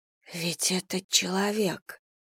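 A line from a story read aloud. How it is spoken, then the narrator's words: Whisper. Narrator (Russian): прошептала Вера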